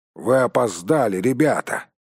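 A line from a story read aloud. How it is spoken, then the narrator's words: Grumbling. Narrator (Russian): проворчал он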